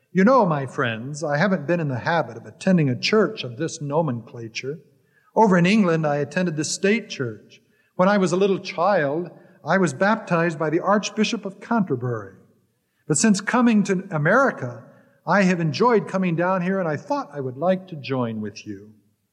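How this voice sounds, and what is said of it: Put-on refined English accent. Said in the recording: “with choice English accent said”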